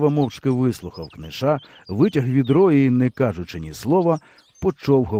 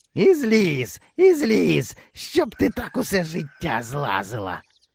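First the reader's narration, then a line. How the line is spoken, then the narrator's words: Angry hoarse rasp. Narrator (Ukrainian): сердито прохрипів Книш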